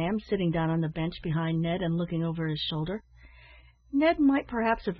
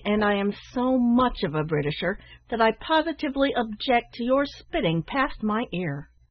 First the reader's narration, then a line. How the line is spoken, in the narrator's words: answered Ned somewhat angrily